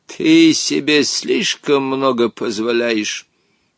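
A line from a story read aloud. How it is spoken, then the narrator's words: Displeased muttering. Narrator (Russian): недовольно пробурчал Хоттабыч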